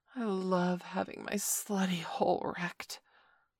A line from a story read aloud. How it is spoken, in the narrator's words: moaned Valerie